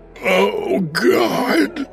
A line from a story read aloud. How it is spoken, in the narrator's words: Broderick said in a gasping, hoarse voice, saturated with raw fear